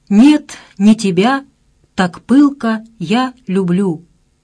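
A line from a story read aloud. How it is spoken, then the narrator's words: Crackling, hissing record. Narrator (Russian): подскакивая, потрескивая и шипя, быстро вертелась под иглой Вера Васильевна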